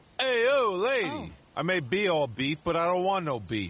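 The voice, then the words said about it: Put-on New York accent. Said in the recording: “Is that a New York accent? ... No, of course it's New York.”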